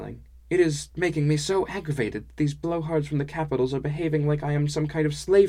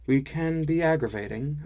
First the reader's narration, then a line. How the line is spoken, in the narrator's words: I said calmly